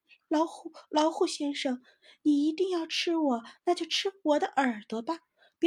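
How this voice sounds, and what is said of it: Pitiful, pleading small-animal voice. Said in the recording (Chinese): “小松鼠又用可怜的声音说”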